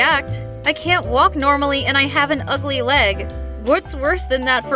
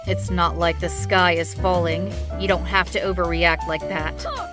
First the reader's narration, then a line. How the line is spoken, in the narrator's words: he replied very coldly